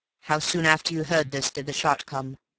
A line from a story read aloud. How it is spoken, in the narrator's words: asked the coroner